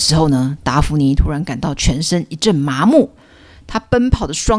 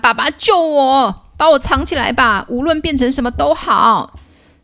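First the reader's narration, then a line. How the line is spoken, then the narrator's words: Shouting. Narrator (Chinese): 达芙妮就大喊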